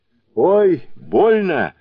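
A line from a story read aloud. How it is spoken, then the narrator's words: Yelping in pain. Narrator (Russian): завопил Сунь-Укун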